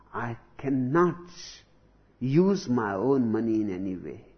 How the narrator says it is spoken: slowly, slowly he became very honest with me, and he said

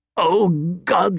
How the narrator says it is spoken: he said, choking on his laughter

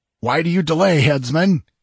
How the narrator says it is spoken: he exclaimed angrily

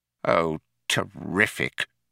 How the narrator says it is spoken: muttered Fauk

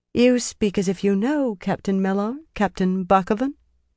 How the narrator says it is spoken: Elaine put just a hint of question in that, but kept her tone casual

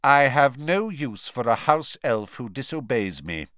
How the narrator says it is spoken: he said coldly

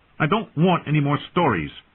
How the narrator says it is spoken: Bran snapped, his voice petulant

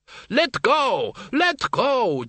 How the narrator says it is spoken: Doreen screamed

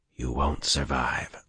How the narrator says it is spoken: Luz Theron whispered

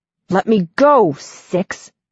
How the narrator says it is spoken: Nine growls

